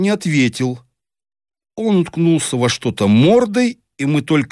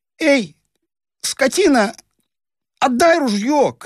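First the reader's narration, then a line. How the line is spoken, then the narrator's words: Shouted. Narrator (Russian): крикнул он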